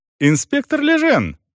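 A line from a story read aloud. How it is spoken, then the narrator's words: Warm exclamation. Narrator (Russian): радушно воскликнул мистер Осборн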